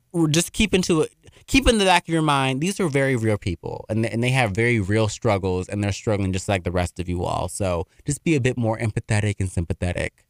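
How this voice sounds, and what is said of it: Very fast speech. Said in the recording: “I spoke real fast today. ... I've been talking like a damn auctioneer. ... I've been running my damn mouth.”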